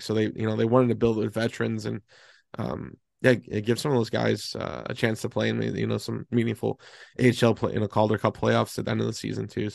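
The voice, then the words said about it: Hoarse, strained voice. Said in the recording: “I feel like I'm losing my voice”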